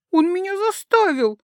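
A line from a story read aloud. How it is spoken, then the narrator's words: Said, sobbing stopped. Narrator (Russian): сказала она, забыв всхлипывать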